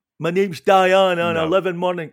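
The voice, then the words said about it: Scottish accent rap impression. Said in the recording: “You don't really hear rappers in a Scottish accent. ... you did absolutely nail Diane's voice there”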